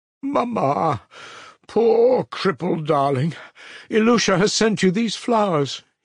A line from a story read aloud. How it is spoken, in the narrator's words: he cried